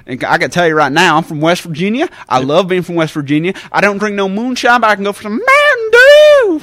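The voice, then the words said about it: Put-on West Virginia Southern accent. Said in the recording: “I don't have a Southern accent. I don't have a West Virginia accent. ... I can do that voice pretty damn well.”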